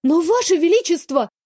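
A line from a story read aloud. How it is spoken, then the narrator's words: Exclaiming. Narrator (Russian): воскликнула я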